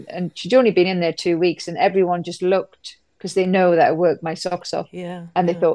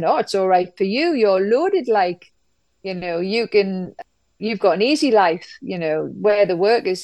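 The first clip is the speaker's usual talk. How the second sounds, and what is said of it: Put-on Geordie accent. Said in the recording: “I'll do this in a Geordie accent”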